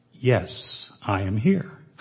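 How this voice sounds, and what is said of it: Deep voice. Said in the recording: “A deep voice replied”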